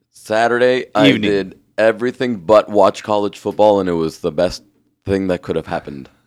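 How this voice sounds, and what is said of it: Raspy, hoarse voice. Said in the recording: “You sound raspy. ... I'm a little raspy. ... You sound very raspy. ... It's good radio voice.”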